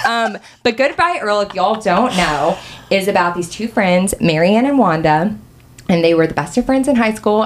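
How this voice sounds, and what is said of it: Southern American accent. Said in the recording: “Your southern accent is really coming out in this episode”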